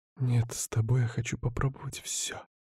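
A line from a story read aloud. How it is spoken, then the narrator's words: Soft seductive voice. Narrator (Russian): тихо сказала моя соблазнительница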